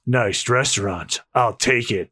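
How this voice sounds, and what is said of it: Duke Nukem character voice. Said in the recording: “do a Duke Nukem voice for him? That's it, guys. From now on, I'm doing the Duke Nukem voice”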